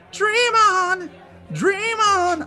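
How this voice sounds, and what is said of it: Imitates Aerosmith's singing. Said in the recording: “my best impression of Aerosmith”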